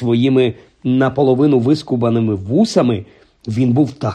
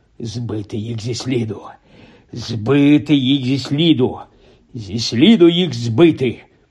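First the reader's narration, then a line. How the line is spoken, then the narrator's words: Repeated muttering. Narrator (Ukrainian): бурмотів так щоразу після поворотів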